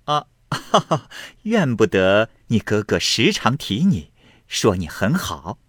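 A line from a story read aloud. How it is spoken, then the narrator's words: Feigned laughing. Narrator (Chinese): 向贾瑞假意笑道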